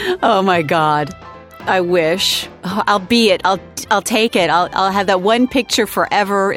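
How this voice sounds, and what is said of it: Usual voice. Nothing is said of it.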